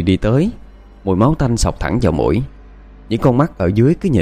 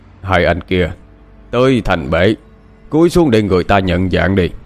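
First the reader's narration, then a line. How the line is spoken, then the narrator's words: Deep booming voice. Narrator (Vietnamese): tiếng nói ồm ồm cất lên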